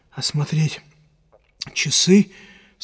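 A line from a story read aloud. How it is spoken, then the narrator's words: Sleepy question. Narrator (Russian): спросил он, сонно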